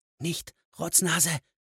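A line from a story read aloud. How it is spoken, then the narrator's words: Quiet. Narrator (German): sagte Hicks leise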